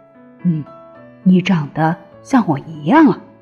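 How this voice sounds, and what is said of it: Soft whispered voice. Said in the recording (Chinese): “霸王龙小声地说”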